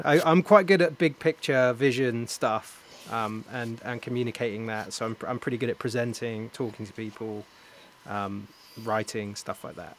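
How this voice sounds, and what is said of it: Speaker with a noticeable accent. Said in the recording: “Other than the accent?”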